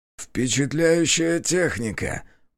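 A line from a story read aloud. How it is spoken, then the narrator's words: Creaky rasp. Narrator (Russian): проскрипел он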